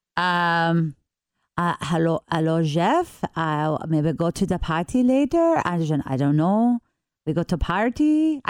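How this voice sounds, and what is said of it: English with put-on French accent. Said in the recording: “speak English with a convincing French accent”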